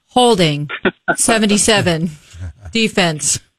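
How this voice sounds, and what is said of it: Imitates a referee's announcing voice. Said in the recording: “Let me do my impression a little bit. ... It's pretty good. ... That's not bad. I'll work on it.”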